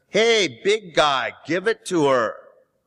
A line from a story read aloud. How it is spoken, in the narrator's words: calling out while the voice in the bus was yelling